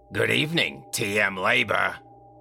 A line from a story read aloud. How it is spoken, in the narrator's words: said with a raspy voice into the rotary phone